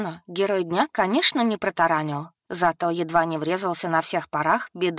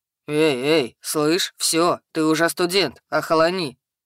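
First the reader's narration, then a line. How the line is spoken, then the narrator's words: Troll's booming rumble. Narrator (Russian): прогудел тролль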